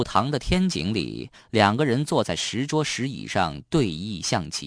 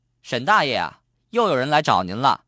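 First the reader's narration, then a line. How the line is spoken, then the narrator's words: Loud call. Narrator (Chinese): 热心的邻居……大声喊了一句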